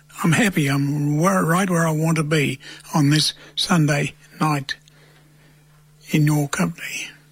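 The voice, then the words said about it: Gravelly whispered voice. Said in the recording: “Gravelly Gut Voice ... I'm whispering,”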